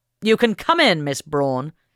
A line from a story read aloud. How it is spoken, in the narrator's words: Henry Smith Fish shouted